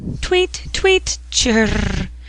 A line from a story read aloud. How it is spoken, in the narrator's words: Cherry in his cage over her head chirped vigorously by way of consolation